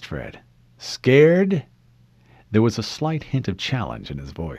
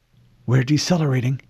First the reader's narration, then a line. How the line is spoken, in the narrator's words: she whispered